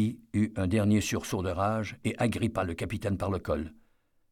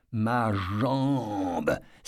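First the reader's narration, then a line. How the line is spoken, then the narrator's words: Hissed in pain. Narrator (French): siffla Eddie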